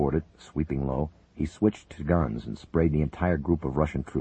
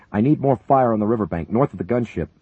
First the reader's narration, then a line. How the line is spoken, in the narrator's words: Buchanan shouted over the radio